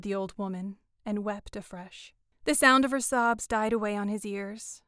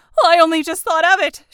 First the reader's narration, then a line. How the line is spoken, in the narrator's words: she said hysterically